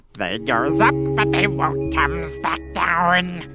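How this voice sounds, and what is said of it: Weird put-on voice. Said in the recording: “I said it in a weird voice”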